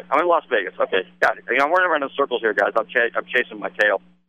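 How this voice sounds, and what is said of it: Very fast talking. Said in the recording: “reason I'm talking so fast ... I'm trying to cram as much verbiage in as I possibly can”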